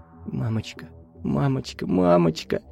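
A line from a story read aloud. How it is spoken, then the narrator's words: Trembling whisper. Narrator (Russian): шептать дрожащими губами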